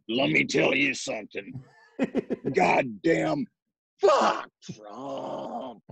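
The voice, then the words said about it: Impression of a drunk father. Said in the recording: “when he gets drunk, he's like ... This is a great impression. ... This is actually a good impression.”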